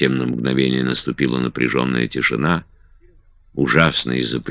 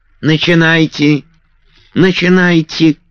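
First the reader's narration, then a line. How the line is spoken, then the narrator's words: Thin piercing shout. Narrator (Russian): крикнула Гагула своим тонким пронзительным голосом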